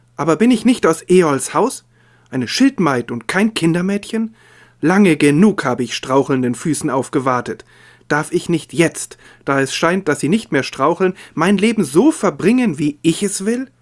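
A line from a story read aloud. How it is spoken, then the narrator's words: Calling out. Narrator (German): rief sie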